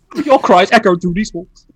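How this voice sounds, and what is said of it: Imitates another person's voice. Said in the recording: “It's Michael Caine.”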